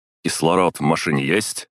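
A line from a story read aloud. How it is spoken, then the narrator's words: Barked. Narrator (Russian): гаркнул я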